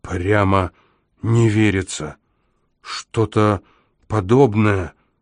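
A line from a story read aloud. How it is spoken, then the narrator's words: Stunned, forced-out words. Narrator (Russian): выдавил, ошеломленный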